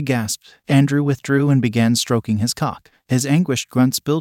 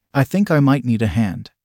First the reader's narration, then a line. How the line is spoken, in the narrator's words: said